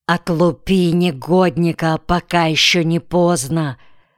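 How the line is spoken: Wives' angry hissing. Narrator (Russian): Со злостью шипели жены

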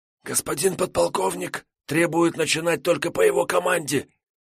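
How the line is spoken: Hoarse whisper over phone. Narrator (Russian): сиплым шепотом ответил висящий на линии связист

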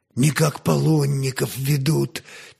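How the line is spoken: Quiet speech. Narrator (Russian): тихо молвил

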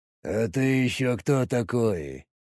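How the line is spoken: Low husky voice. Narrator (Russian): Голос низкий, с хрипотцой

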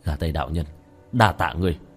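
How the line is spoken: Smiling mutter. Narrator (Vietnamese): lẩm bẩm

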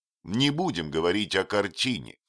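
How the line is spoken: Plain. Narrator (Russian): сказал он

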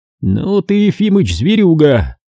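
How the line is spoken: Nervous chuckle. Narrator (Russian): нервно хохотнул полковник Латыпов

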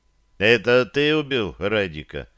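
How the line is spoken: Dry question. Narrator (Russian): сухо спросил я

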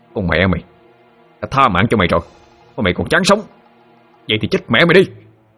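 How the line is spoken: Shouting. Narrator (Vietnamese): Thụy quát lên

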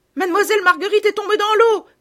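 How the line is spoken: Women shouting. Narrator (French): criaient les bonnes femmes

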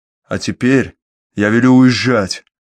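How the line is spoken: Angry bark. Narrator (Russian): рявкнул рассерженный сыщик

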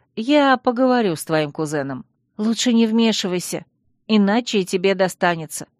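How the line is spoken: Sighing. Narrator (Russian): вздохнула Алекс

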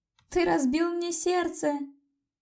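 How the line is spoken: Sobbing. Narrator (Russian): Всхлипнула я

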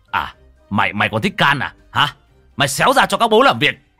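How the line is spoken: Yelled. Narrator (Vietnamese): thằng cu đánh nhạc xách cổ cậu mà gào lên

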